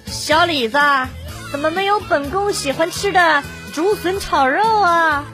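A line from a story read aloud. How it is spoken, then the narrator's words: Impulsive, playful. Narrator (Chinese): 我一看没有我喜欢的菜，脑子一抽就说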